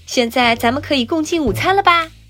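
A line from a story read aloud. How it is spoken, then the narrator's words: Calling out. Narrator (Chinese): 博士喊道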